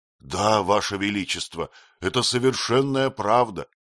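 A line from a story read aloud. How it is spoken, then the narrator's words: Sincere exclamation. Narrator (Russian): с полной искренностью воскликнул Фронтенак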